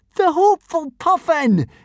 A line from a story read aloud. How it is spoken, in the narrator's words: exclaimed joyfully